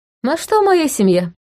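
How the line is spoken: Cheerful. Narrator (Russian): весело

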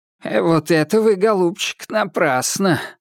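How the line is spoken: Disapproving creaky voice. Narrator (Russian): осуждающе проскрипел Козулин

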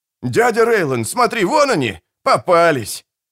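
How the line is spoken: Shouted. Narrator (Russian): Один из них крикнул

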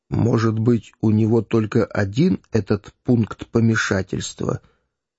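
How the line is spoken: Thoughtful whisper. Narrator (Russian): прошептал он, наконец, в раздумье

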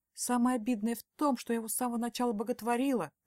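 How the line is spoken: Dejected voice. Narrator (Russian): поникшим голосом сообщаю я

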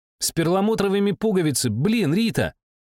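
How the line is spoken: Shouting. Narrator (Russian): крикнула кадет Дольче

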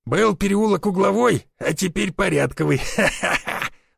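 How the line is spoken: Laughing. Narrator (Russian): засмеялся Брюк

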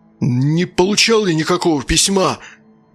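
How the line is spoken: Shouted out. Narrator (Russian): выкрикнул Идрис

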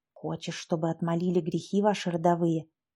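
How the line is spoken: Old woman whispering. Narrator (Russian): шептала бабка Катерина

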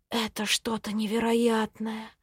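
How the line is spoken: Whisper. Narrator (Russian): прошептала

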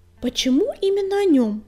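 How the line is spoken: Sharp question. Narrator (Russian): резко спросила Пепелюшка

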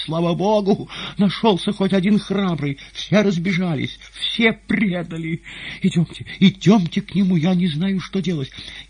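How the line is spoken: Sobbing. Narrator (Russian): продолжая рыдать, она

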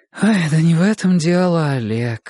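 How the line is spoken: Tired. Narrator (Russian): устало проговорила директор

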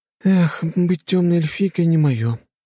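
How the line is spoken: Sighing. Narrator (Russian): вздохнула Лена

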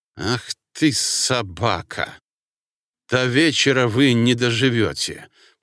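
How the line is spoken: Hissed. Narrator (Russian): прошипел

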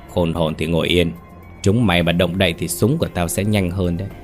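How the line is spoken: Cold voice. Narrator (Vietnamese): Giọng Nhất lạnh lùng vang lên

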